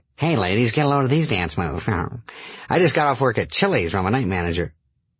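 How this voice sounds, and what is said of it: Stereotyped white guy voice. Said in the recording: “that is a clear white voice”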